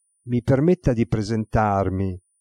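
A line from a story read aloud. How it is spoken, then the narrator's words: Plain. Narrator (Italian): disse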